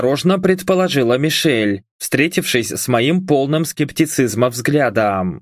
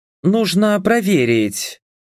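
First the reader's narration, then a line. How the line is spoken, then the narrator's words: Sighing. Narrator (Russian): вздохнула Мишель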